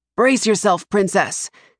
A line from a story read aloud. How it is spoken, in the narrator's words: the coachman yells